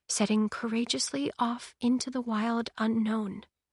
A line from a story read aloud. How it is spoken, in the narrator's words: she whispered